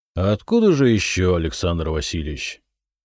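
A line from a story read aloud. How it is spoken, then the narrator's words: Tired chuckle. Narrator (Russian): устало усмехнулся Зотов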